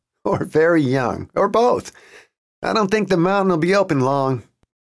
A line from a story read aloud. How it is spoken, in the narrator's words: Jason said, laughing